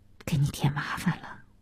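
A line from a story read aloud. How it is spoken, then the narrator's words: Low voice. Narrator (Chinese): 小西低声地说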